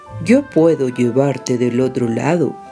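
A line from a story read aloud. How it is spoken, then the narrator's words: Plain. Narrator (Spanish): le dijo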